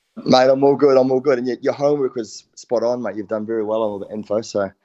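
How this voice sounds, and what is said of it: New Zealand accent. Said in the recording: “how on earth have you not lost that New Zealand accent? Because you've been over there more than two decades”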